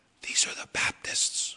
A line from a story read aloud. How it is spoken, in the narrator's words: the angel whispered, said